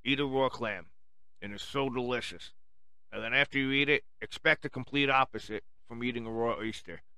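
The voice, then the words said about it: Speaker's own regional accent. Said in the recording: “my accent actually fucked up the word oyster”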